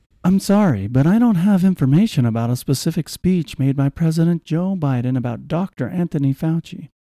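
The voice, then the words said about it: Public radio announcer voice. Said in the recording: “should I do this in the NPR voice? ... You're going to read the chat with the NPR voice.”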